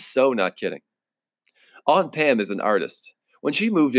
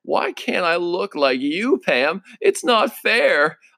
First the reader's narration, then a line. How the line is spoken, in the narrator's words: would be whining all the time